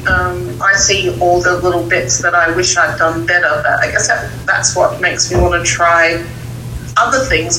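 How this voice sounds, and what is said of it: Pure Australian accent. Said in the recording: “I've liked Kelly's accent, but I really like yours. ... is more pure ... an Australian accent. Don't pronounce the R's.”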